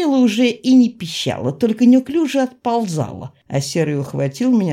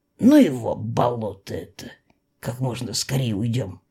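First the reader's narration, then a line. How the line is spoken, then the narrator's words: Whispered in ear. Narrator (Russian): шепнул он мне на ухо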